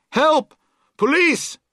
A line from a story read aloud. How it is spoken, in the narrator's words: she would shout